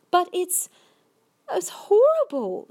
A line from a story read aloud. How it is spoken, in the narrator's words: Sophie cried